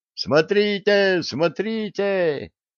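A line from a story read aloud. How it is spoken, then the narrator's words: Distant yell. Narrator (Russian): заорал на другом конце лагеря кто-то из смердов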